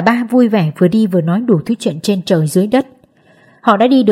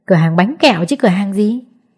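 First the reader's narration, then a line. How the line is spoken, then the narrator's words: Laughing loudly. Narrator (Vietnamese): cười lớn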